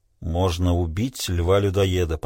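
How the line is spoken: Mutter. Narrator (Russian): пробормотал он

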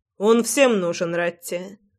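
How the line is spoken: Snorting chuckle. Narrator (Russian): хмыкнул я

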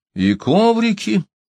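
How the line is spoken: Disappointed exclamation. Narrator (Russian): разочарованно воскликнул юнкер

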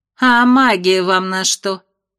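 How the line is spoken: Snide reply. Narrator (Russian): ехидно ответила мисс Пруденс-младшая

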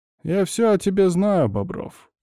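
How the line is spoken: Cold. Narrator (Russian): холодно сказал он

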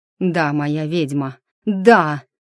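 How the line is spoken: Triumphant growl. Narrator (Russian): как-то победно рыкнул сыч

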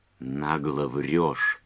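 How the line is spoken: Whisper. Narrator (Russian): прошептала

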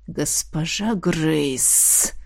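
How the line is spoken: Hiss. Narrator (Russian): прошипел брюнет

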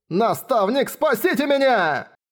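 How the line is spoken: Shout. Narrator (Russian): Он закричал

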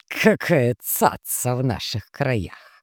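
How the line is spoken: Lazy drawl. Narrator (Russian): лениво проговорил он

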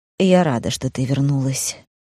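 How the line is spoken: Rasped. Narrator (Russian): прохрипела она, глядя на Джин слезящимися глазами

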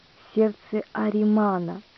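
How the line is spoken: Whispered, sturdy man. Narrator (Russian): Смуглый крепкий человек прошептал

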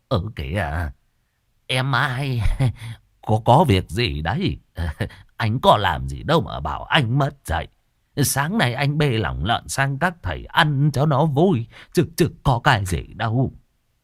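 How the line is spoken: Old man's startled stammer. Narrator (Vietnamese): Ông cụ Khù giật mình lắp bắp

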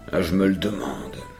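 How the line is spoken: Murmured. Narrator (French): murmura Tom

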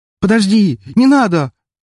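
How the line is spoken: Survivor shouting. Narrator (Russian): закричал последний выживший

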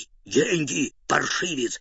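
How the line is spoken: Angry hiss. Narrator (Russian): шипел низенький

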